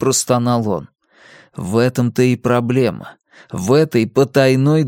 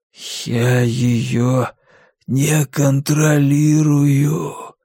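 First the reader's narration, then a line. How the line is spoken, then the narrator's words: Hoarse wheeze. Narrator (Russian): прохрипел он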